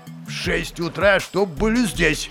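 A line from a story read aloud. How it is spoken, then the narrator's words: Menacing demand. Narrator (Russian): Грозно потребовал Пугачев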